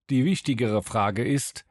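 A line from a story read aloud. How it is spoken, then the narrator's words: Gloomy voice. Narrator (German): entgegnete Keller mit düsterer Stimme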